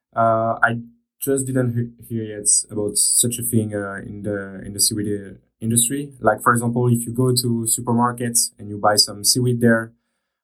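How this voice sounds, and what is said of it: Non-native English accent. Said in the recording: “sorry for my accent”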